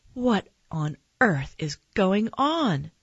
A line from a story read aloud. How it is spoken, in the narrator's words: my mom cried